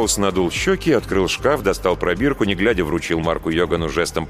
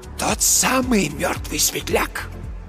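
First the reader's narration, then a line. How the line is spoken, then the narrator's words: Very quiet rasp. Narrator (Russian): Просипел Марк Йоган совсем тихо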